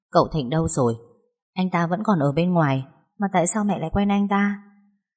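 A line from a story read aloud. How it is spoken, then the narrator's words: Said with a sigh. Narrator (Vietnamese): thở dài nói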